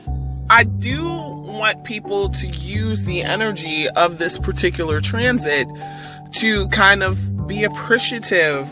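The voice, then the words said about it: Sounds out of breath. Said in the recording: “I don't know why I'm so out of breath. I am just sitting here.”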